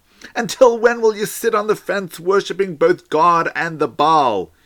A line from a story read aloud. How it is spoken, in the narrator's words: cried out to the people